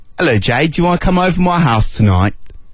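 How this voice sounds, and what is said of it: Put-on London English accent. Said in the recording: “accent ... It's a sort of a London sort of... Essex thing. No, not quite Essex. London, I'd say. ... It's okay.”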